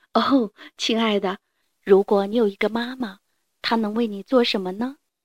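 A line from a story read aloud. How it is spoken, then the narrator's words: Sighing woman. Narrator (Chinese): 她叹了一口气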